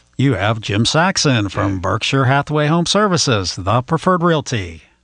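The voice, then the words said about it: Polished radio-style voice. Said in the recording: “You have like a radio voice ... You're putting us to shame right now.”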